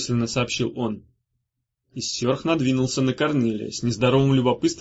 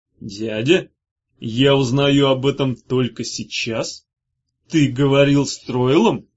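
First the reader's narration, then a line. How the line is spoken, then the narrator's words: Growl. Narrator (Russian): прорычал хранитель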